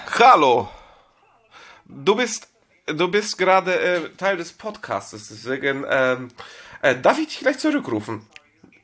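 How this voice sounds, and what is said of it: Put-on Russian accent. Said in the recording (German): “wenn ... anfängt, polnisch zu reden ... Du hast angefangen, mit polnischen Akzent zu sprechen ... Das war russischer Akzent ... das war russischer Akzent”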